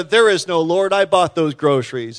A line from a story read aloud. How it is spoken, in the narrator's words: This neighbor shouted